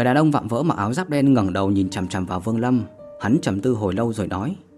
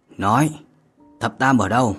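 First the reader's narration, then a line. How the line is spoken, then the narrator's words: Cold. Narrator (Vietnamese): Vương Lâm lạnh lùng mà nói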